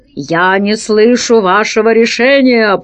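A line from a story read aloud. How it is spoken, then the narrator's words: Growl. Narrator (Russian): прорычал Пашка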